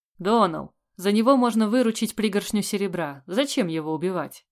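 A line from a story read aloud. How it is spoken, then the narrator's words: Plain question. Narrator (Russian): спросил Тощий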